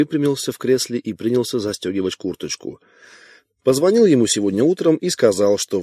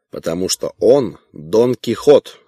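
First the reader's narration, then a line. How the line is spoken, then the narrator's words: Barked. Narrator (Russian): рявкнул Вайнгартен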